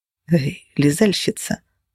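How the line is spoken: Whisper. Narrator (Russian): прошептал целовальщик

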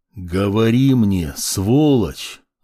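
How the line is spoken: Menacing drawl, brutal man. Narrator (Russian): Злобно протянул высокий, брутальный мужчина

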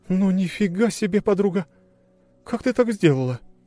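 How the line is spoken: Exclaiming. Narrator (Russian): воскликнула Маша

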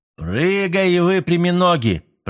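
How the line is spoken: Booming voice. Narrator (Russian): прогудел грек

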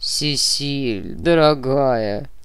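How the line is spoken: Unctuous tone. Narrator (Russian): елейным тоном произнес эрлиец

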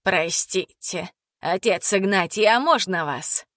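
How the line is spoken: Husky female voice. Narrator (Russian): Раздался хрипловатый женский голос

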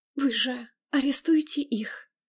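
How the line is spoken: Quiet farewell whisper. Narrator (Russian): тихо шепнула она на прощание

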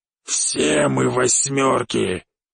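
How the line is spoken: Growled. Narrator (Russian): прорычал Черный

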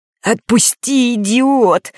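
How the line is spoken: Wheezing while struggling. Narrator (Russian): хрипел Норт, пытаясь вырваться

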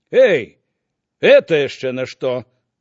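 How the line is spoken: Distant shout. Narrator (Belarusian): крыкнуў здалёк старшыня Альшанскі

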